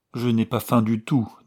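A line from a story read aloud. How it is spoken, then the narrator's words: Sad. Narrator (French): dit tristement Georgie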